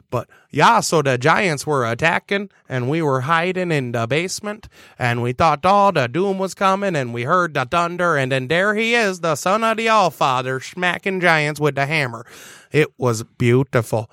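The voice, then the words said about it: Put-on Minnesota accent. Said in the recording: “I'm going to use a Minnesota accent for this.”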